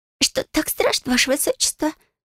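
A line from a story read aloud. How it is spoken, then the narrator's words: Squeaky voice. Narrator (Russian): пискнула Хмилия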